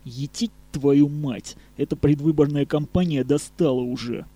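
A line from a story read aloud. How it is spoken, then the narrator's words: Male hissing through teeth. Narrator (Russian): процедил он сквозь зубы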